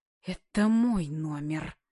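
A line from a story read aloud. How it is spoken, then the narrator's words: Hissing like a cobra. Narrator (Russian): Она зашипела, как кобра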